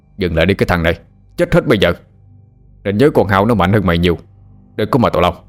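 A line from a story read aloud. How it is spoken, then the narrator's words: Loud angry shout. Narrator (Vietnamese): ông hai quát lớn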